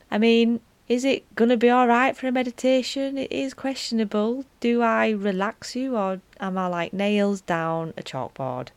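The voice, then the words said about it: Broad Yorkshire accent. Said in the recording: “this voice, this broad Yorkshire Wakefield accent.”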